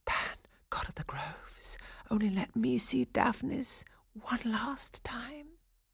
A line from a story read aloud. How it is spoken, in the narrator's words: whispering